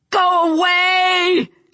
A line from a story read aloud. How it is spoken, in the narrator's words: she screamed